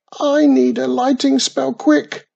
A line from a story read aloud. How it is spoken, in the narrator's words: squealed